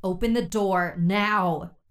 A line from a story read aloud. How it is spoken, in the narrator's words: Priya shouted at the driver